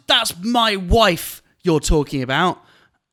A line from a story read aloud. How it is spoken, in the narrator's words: he shouted